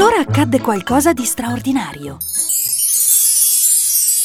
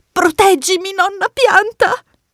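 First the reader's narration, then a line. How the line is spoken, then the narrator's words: Pleading. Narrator (Italian): supplicò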